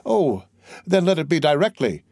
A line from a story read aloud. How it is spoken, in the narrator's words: exclaimed the young men